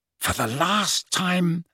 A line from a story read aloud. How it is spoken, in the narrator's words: said Harry, speaking in a slightly hoarse whisper after three quarters of an hour of silence